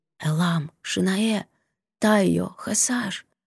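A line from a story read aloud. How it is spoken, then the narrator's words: Dry-lipped whisper. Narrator (Russian): шепнула пересохшими губами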